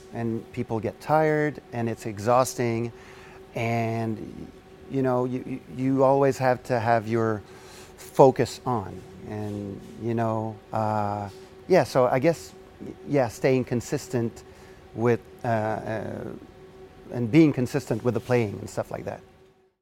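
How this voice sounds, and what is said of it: French Canadian accent. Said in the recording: “he's got a very sexy accent ... French Canadian”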